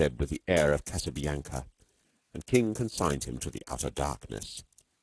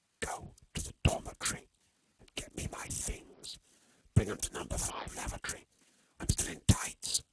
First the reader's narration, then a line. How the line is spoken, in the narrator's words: hissed Storky